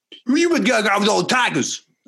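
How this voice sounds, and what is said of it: Poor celebrity voice impression. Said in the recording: “That was a horrible impression.”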